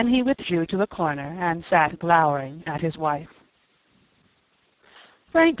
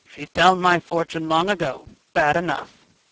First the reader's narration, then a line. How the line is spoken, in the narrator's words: grunted